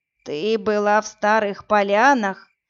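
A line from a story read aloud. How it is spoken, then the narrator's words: Creaky old woman. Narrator (Russian): проскрипела старуха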